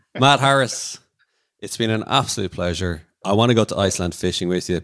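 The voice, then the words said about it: Irish accent. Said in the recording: “your beautiful Irish accent”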